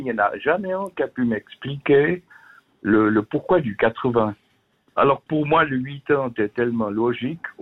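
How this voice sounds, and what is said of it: Slight Swiss Vaud French accent. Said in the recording (French): “vous êtes du côté du canton de Vaud ... Avec l'accent que j'ai ... un peu, mais oui, un petit peu”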